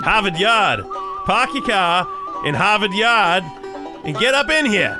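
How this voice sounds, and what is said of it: Put-on Boston accent. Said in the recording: “Is there anything else we can say in a Boston accent?”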